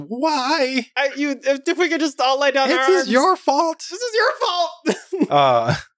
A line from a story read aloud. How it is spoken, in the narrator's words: yells